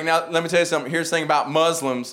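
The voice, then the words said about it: Put-on Southern accent. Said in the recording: “Southern accents are charming and they're funny ... having a Southern accent”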